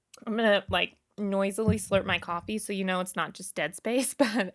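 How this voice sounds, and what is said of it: Tired, fading hoarse voice. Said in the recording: “I'm kind of losing my voice from, it's mostly from a lack of sleep ... when I'm really, truly tired, my voice goes”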